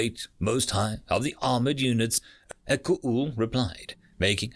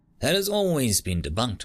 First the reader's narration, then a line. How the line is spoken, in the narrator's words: Mo-Oster-O said